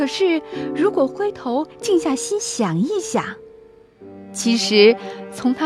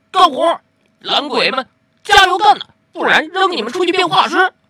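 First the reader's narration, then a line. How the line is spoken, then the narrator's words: Loud roaring. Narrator (Chinese): 灰头冲进车间，大吼起来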